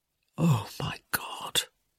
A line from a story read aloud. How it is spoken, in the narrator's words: Michael moaned